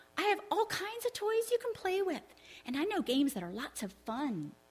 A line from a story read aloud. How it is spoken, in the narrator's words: Johnny grinned and said eagerly